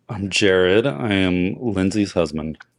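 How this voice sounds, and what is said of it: Flat, unenthusiastic delivery. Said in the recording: “God, you sound so excited to be my spouse.”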